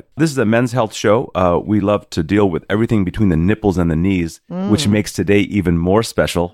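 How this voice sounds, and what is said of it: Husky voice. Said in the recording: “My voice is a little bit husky today... A little bit sexy.”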